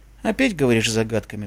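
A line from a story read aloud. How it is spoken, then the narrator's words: Sigh. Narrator (Russian): вздохнул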